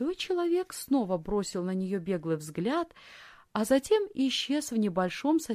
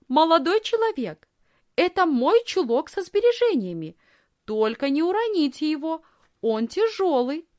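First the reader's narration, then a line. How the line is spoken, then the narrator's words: Loud. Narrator (Russian): Лисхин громко сказала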